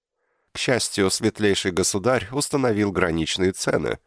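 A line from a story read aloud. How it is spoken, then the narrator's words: Laughed, pleased. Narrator (Russian): рассмеялся он, довольный, что кто-то обманул тех, кто хотел обмануть клиентов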